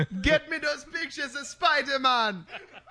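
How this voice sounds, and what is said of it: Put-on Jamaican accent. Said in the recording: “Jamaican Jameson ... Jamaican Jonah Jameson ... I'm not even going to try a Jamaican accent ... neither of us should probably have done it”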